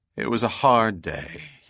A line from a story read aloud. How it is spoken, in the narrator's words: said with a long sigh